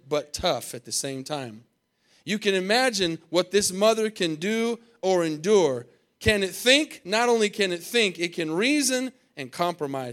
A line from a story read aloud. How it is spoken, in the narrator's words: said the Creator